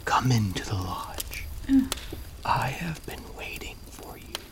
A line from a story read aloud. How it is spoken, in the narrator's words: skeleton man whispered